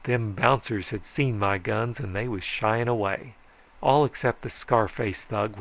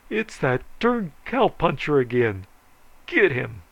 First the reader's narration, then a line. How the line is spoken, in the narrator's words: Ace jerked his cigar out of his mouth and bawled